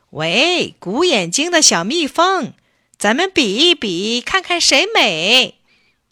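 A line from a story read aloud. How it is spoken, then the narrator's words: Loud call. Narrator (Chinese): 小公鸡又大声叫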